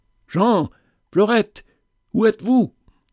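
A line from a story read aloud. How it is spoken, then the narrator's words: Straining desperate shout. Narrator (French): dans un effort surhumain, je criai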